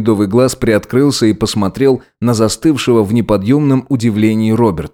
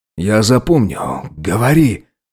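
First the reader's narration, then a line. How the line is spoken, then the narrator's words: Cautious whisper. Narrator (Russian): осторожно прошептал тот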